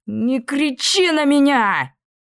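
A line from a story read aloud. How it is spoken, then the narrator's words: Furious yell. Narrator (Russian): завопила Ниида в ярости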